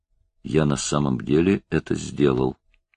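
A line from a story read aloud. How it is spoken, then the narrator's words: Mumbling. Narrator (Russian): пробормотал он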